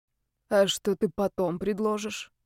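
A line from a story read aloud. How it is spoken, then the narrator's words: Hoarse whisper. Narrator (Russian): спросила хриплым шепотом Настя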